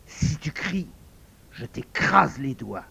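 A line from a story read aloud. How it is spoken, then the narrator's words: Hissed through teeth. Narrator (French): souffla-t-il entre ses dents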